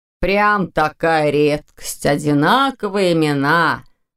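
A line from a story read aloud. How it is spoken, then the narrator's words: Contemptuous snort. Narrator (Russian): Презрительно фыркнул Степан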